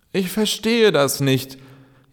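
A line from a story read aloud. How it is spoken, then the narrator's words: Whining old tree. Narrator (German): jammerte der Baum, der einst so groß gewesen war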